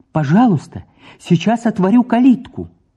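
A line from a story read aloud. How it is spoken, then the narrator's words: Warm cheerful. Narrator (Russian): Среднев отметил радостно-радушно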